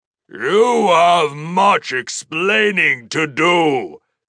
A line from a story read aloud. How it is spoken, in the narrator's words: Zhu Li Zhen said, his voice like thunder